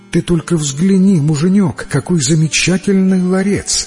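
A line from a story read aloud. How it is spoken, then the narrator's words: Exclaiming. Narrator (Russian): воскликнула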